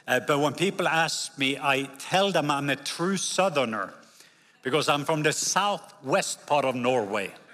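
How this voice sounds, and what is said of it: Norwegian accent. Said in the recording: “I am from the country of Norway. When you hear, I have an accent.”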